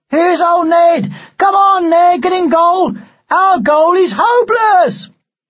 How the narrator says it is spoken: someone caught sight of him and shouted

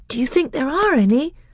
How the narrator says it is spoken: asked Caspian eagerly

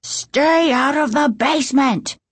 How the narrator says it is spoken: he bellowed in a voice they'd never heard before

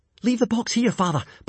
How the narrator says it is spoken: panted Hiccup as he jogged along beside his father

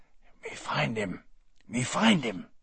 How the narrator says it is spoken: He leaned towards me, his eyes dancing, and whispered hoarsely

